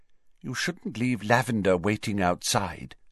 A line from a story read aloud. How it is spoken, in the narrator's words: she said quietly